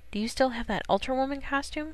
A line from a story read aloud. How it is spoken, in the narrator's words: He murmured